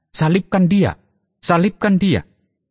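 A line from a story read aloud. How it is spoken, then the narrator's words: Crowd shouting back. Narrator (Indonesian): mereka berteriak membalasnya katanya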